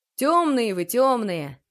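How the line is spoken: Cheerful. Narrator (Russian): весело сказал Тарас

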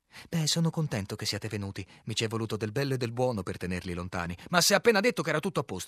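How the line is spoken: Shout. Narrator (Italian): gridai

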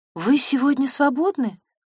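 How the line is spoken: Timid, hesitant voice. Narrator (Russian): Голос звучал робко, словно Елизавета боялась тратить драгоценное Наташино время

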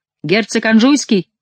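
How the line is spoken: Shouted. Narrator (Russian): крикнул принц

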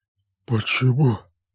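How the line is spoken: Forced out. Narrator (Russian): наконец выдавил он

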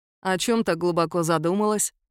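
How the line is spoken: Inquiring question. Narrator (Russian): осведомился незабвенный куратор

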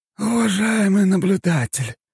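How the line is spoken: Weary exhale. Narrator (Russian): советник устало выдохнул

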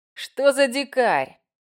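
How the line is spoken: Scornful tsk. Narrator (Russian): цыкнул Рейн, хмыкнув

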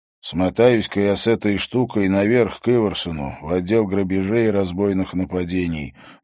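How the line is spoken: Gruff mutter. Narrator (Russian): буркнул Харри

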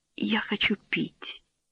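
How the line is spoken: Mumbled. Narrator (Russian): Абель пробормотал

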